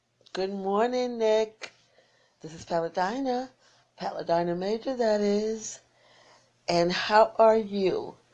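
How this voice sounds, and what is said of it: Strained, fading voice. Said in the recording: “I think I'm losing my voice. ... I am losing my voice”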